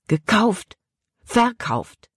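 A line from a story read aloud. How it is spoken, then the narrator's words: Angrily blurted. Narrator (German): Caleb stieß die Worte wütend hervor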